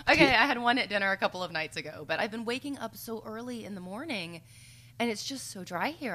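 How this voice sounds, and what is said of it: Hoarse voice with vocal fry. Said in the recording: “you do hear the vocal fry in our throats now”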